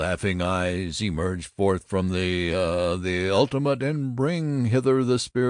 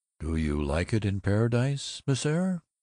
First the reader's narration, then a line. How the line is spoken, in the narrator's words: Littlefield asked in a learned tone